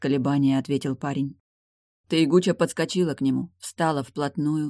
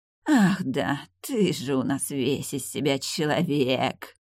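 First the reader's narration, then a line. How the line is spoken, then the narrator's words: Mocking drawl. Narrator (Russian): насмешливо протянула Тайгуча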